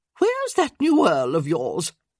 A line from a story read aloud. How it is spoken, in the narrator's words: Lady Danbury snorted at that, then asked